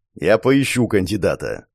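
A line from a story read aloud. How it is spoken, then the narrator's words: Grumbled. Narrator (Russian): пробурчал генерал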